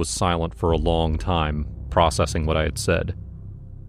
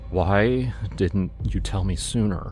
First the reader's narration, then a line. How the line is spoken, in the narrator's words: asked, his voice trembling